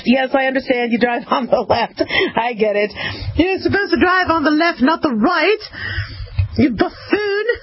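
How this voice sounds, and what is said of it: Put-on British accent. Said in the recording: “Hey, that's a damn good impression. That's a good, like, I have a lot of British friends.”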